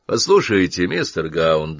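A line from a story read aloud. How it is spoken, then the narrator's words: Flat, impassive tone. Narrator (Russian): заговорил он тем же ровным, бесстрастным тоном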